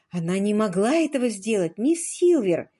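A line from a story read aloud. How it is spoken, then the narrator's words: Exclamation. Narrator (Russian): воскликнула Джулия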